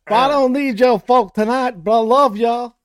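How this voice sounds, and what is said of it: Poor put-on Southern accent. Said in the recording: “Your Southern accent is like my Australian accent. It's not good.”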